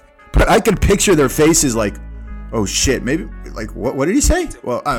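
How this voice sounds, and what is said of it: Usual voice. Nothing is said of it.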